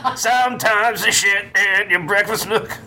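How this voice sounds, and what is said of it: Imitates another person's voice. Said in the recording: “my Josh Adam Myers impression”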